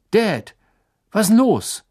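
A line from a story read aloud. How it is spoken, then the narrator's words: Calling through darkness. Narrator (German): rief er durch die Dunkelheit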